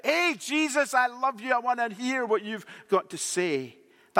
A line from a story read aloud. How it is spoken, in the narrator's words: somebody in church who was shouting out